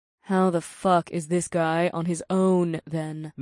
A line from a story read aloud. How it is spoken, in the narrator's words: Naomi grumbled